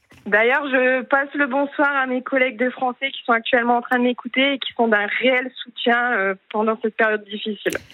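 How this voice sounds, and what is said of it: Slight Northern French accent. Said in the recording (French): “vous êtes ch'ti? Vous avez un petit accent du Nord que je reconnais.”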